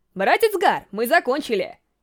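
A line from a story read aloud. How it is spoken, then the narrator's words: Child shouting. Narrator (Russian): Крикнул мальчик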